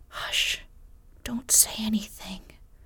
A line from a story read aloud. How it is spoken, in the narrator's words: she whispered